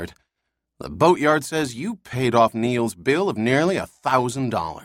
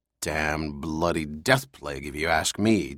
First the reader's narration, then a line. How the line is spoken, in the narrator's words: Duffy growled